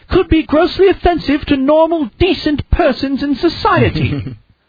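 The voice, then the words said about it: Put-on posh Queen's English accent. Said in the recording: “That's your Queen of England accent.”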